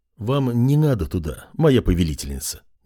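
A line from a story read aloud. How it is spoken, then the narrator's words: Soft. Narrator (Russian): мягко произнес Лесток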